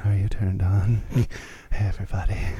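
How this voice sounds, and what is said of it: Soft baby-like put-on sexy voice. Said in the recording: “sexy voice... a weird, almost like baby, soft baby-like, but somehow old man”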